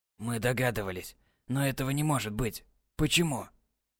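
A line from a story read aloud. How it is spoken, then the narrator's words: Quiet, horrified. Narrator (Russian): Тихо произнес, с ужасом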